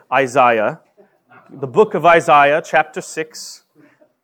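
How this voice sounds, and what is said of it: Attempted British accent. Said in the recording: “my only attempt at a British accent”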